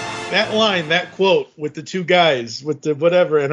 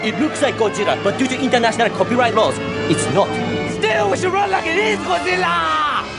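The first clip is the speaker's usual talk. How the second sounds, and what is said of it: Deliberately bad put-on accent. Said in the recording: “I know I'm doing really bad accents”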